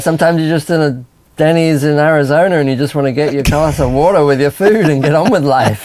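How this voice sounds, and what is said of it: English accent, somewhat drifted. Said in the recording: “my accent's changed over the years because I've been here so long. It sort of drifts up and down ... maybe sounding a bit more English”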